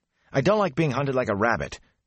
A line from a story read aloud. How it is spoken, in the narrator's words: Matt snapped